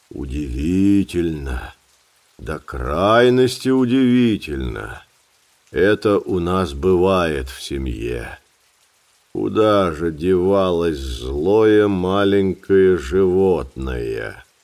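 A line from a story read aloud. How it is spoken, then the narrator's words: Grumbling to himself. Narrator (Russian): проворчал про себя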